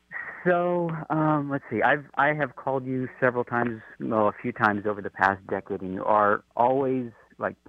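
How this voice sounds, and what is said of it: Smooth radio-style voice. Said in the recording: “You also have a great radio voice, too”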